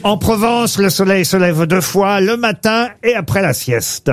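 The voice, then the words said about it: Light put-on southern French accent. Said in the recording (French): “Vous avez utilisé un petit accent... ça parle du midi”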